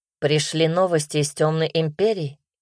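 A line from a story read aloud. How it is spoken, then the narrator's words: Plain question. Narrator (Russian): спросил Тиль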